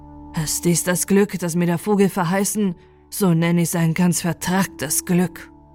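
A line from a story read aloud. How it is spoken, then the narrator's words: Wailing lament. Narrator (German): jammerte er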